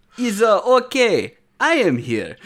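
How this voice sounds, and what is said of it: Fake French accent. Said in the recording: “I don't know if that was a good fake French accent.”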